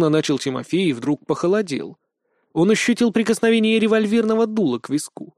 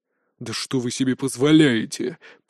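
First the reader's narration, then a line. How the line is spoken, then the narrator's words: Growled. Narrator (Russian): прорычал Тигров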